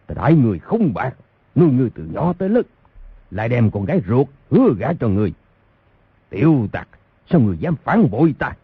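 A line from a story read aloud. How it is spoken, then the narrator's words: Furious shout. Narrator (Vietnamese): Thành Các Tư Hãn bộ mặt giận dữ, đập bàn một cái quát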